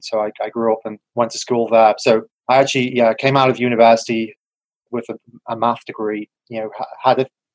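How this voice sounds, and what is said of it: English accent. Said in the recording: “You can tell from probably my strange accent, I was born in England.”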